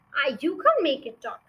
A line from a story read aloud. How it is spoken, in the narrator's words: Fred said